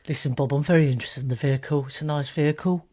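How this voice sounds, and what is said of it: Lowered, quiet confidential voice. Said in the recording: “lower your voice, don't you? Lower your voice.”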